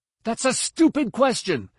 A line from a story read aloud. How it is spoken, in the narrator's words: Ben yelled